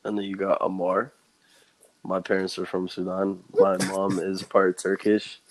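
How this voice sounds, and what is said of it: Hoarse, tired-sounding voice. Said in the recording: “it just sounded like you're tired ... I just lost my voice. I lost my voice last night.”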